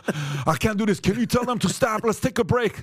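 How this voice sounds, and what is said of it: Mock breathless, winded voice. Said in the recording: “This guy's going to run out of breath after 30 seconds of”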